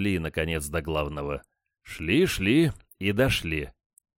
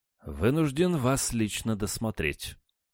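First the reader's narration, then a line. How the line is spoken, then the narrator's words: Dry. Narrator (Russian): сухо произнес он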